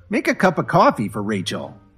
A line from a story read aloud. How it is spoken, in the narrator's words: Dorothy snapped at Kevin